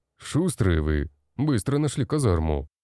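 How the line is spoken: Snorting. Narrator (Russian): хмыкнул

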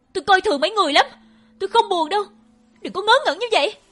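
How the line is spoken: Shouting. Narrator (Vietnamese): Tôi hét

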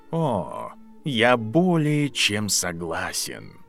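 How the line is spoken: Quiet menacing drawl. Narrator (Russian): негромко протянул Снейп с явственной угрозой в голосе

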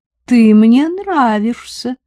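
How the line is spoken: Gracious, after laughing. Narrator (Russian): объявила милостиво, кончив смеяться

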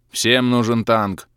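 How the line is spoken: Contemptuous snort. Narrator (Russian): фыркнул орк топор, презрительно

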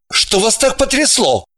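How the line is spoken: Irritated question. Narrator (Russian): раздраженно осведомился Орлов

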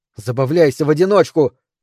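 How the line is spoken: Shouting. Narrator (Russian): крикнула Микаэла

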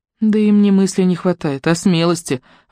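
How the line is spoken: Sighing. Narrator (Russian): вздохнула Жюли

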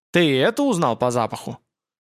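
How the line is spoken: Barbarian's contemptuous snort. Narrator (Russian): Варвар презрительно хмыкнул

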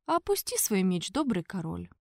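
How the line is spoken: Gentle request. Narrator (Russian): мягко попросил папа

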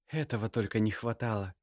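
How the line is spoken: Shocked exhale. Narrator (Russian): выдохнула Ульяна, в шоке

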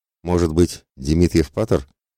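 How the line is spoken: Sly smirking. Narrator (Russian): хмыкнув, подмигнул сотник

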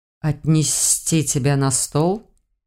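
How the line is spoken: Hissed. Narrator (Russian): Почему-то прошипел он

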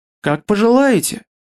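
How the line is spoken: Sighing. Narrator (Russian): вздохнул он

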